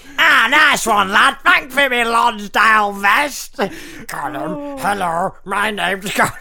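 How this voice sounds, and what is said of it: Gollum character voice. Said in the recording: “That's a good impression.”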